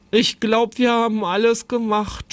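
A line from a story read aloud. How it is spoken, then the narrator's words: Groaning with stomachache. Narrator (German): stöhnte Jonathan, dem der Bauch vom Würstchenessen wehtat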